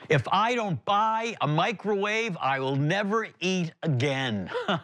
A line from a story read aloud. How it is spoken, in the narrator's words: A voice that came from the other side of the aisle that yelled out